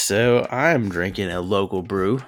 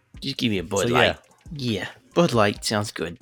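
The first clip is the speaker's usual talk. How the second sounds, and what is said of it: Put-on Boston accent. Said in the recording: “Riding with his random Boston accent.”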